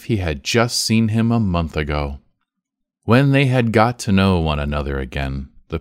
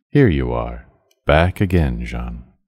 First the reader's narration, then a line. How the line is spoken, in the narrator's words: the old man, all a tremble, said in his calm tone, which he never lost